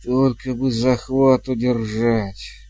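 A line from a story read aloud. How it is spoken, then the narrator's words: Muttered. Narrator (Russian): бормотал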